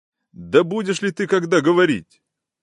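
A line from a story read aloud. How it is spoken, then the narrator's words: Frenzied irritated shouting. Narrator (Russian): закричал Ордынов вне себя от припадка какой-то болезненной раздражительности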